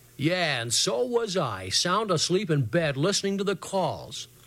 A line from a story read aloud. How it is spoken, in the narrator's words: Big Jim said sarcastically